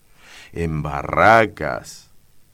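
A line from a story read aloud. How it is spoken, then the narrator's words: Exclaimed. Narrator (Spanish): exclamó Daniel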